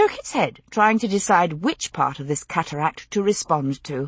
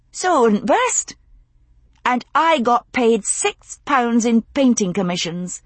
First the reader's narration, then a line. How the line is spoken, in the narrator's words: she concluded triumphantly